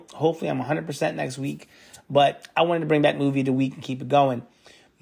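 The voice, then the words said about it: Slightly off, unwell-sounding voice. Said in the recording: “I've been under the weather ... my voice is a little bit off still”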